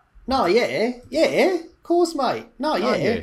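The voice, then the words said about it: Put-on Australian accent. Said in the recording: “That's more Australian. I can't really do New Zealand accent.”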